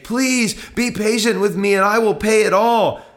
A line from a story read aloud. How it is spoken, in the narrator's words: the man he begged